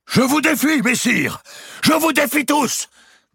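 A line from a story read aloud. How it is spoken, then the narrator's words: Sudden shout. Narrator (French): cria-t-il soudain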